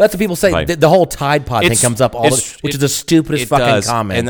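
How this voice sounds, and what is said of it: Usual voice. Nothing is said of it.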